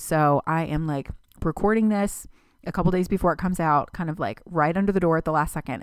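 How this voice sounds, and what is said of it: Sick voice, doesn't sound normal. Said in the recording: “I think I'm getting the flu ... I recognize that I don't sound like myself”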